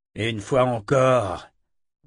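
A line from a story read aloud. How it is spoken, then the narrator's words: Grumbling. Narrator (French): grogna Shandalen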